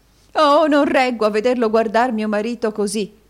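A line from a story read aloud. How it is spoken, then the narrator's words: Woman exclaiming. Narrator (Italian): esclamò la signora Kenwigs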